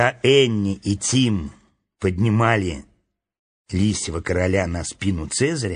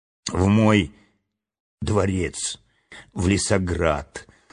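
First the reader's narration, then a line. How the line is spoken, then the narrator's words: Weak voice. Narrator (Russian): слабым голосом ответил царственный лис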